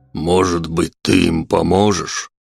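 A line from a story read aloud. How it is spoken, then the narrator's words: Dog asking. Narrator (Russian): спросил пес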